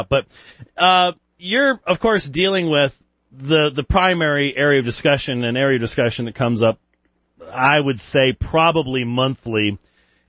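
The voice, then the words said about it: British accent. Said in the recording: “bad British accents. So, not yours, mine.”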